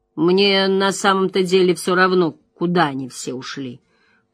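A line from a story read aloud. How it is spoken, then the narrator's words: Grumbling mutter. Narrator (Russian): пробурчал Мэтт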